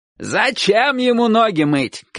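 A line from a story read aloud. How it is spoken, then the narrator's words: Old man shouting. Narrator (Russian): крикнул дедушка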